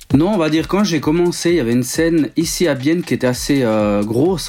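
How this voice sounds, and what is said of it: Swiss French accent. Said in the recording (French): “Comme on peut l'entendre à ton accent, tu es originaire de la Suisse.”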